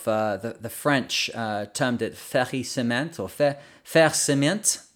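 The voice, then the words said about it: Put-on French accent. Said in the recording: “That's my best French accent for that one.”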